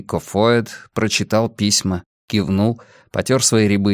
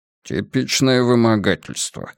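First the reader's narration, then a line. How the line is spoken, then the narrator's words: Grumbling. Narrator (Russian): буркнул Поллок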